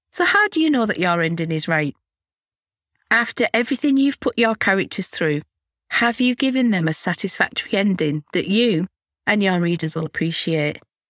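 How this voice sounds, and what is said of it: Hoarse voice. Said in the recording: “excuse my voice, I'm a little bit hoarse this week because I've got a bit of a cold”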